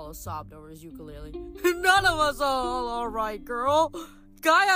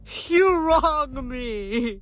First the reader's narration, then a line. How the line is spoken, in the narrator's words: Apollo wailed